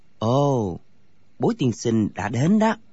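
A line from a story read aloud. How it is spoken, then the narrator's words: Soft voice. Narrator (Vietnamese): Thạch Phá Thiên khẽ nói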